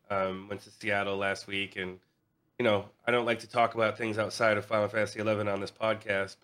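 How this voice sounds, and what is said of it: Sick-sounding voice. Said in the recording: “I've been sick, as you can hear from my voice.”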